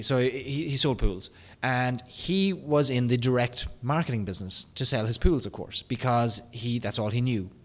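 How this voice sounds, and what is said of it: Irish accent. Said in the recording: “my Irish accent when I pronounce pool”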